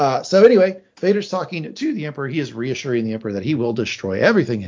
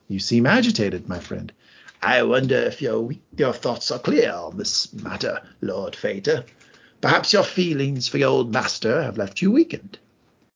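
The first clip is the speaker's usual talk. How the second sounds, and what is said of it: Character voice with an accent. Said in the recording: “Well done on the accent.”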